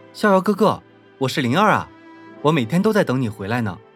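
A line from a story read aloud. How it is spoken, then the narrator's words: Excited shout. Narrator (Chinese): 他激动地喊道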